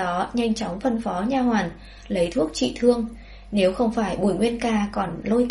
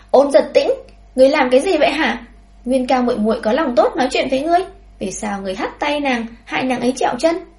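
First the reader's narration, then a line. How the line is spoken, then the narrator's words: Angry yell. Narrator (Vietnamese): Ôn Dật Lan giận dữ hét lên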